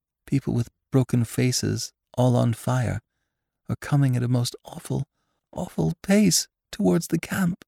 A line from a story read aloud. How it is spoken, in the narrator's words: he would moan